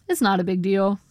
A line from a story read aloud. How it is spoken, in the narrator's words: he said